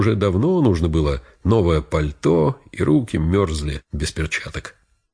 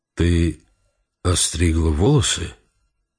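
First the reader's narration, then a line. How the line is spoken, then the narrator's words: Confused, strained question. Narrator (Russian): растерянно спросил Джим с напряжением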